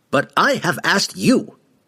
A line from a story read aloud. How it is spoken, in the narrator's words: Dendabar screamed, exploding suddenly in rage